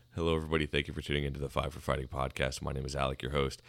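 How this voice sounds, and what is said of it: Hoarse, strained voice. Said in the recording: “I'm kind of losing my voice a little bit today.”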